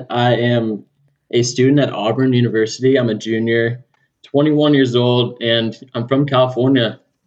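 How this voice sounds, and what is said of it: Californian American accent. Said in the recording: “a fellow California boy, as you'll tell in his California accent.”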